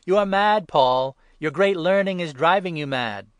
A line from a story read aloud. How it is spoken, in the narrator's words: Festus called out loudly